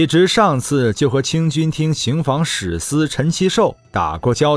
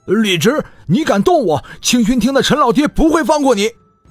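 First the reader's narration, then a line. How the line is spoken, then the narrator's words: Struggling, shouting. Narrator (Chinese): 在地上挣扎，喊道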